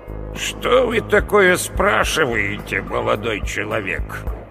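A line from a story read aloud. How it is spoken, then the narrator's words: Creaky old man's voice. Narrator (Russian): Проскрипело над головой ... пожилого мужчину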